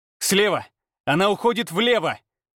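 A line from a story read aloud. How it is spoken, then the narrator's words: Mental shout. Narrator (Russian): мысленно крикнул я Афине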